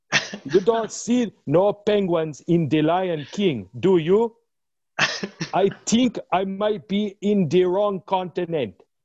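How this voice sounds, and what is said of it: Put-on African accent. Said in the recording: “That was a good African penguin accent.”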